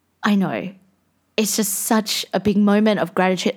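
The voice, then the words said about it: Teary, emotional voice. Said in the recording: “getting teary. Every time I speak about it, I get teary. ... I have tears in my eyes”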